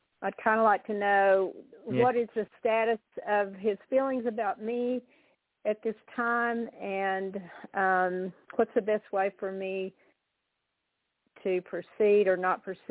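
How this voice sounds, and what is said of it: Texas accent. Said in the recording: “Texas ... from my accent”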